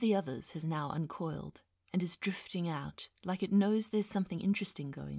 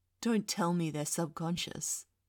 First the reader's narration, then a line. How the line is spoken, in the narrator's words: Gabriel laughs, like that's the most entertaining thing ever